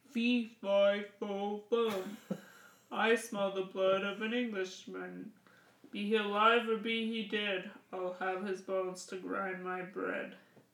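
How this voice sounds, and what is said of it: Roaring angry giant voice. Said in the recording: “The giant angrily stomped his foot and roared ... The voices ... the lady giant and the giant are quite similar in tone”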